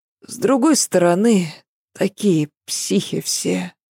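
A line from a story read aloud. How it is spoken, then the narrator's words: Very sleepy nanny. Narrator (Russian): совсем сонно продолжила няня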